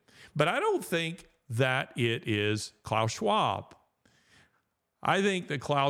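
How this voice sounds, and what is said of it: Usual voice. Nothing is said of it.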